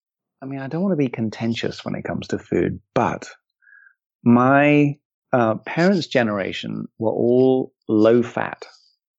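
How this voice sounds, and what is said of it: English accent. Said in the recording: “you grew up in England, which I'm sure people could also gather from the amazing accent”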